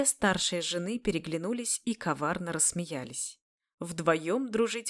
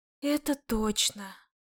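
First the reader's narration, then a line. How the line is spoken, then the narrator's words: Sighing. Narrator (Russian): Вздохнула Равия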